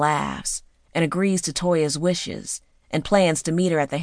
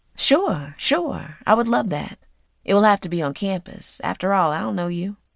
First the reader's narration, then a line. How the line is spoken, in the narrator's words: Toya playfully says